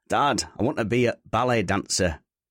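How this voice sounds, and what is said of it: Put-on Northern English accent. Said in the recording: “You like that Northern accent? ... my brilliant range of accents”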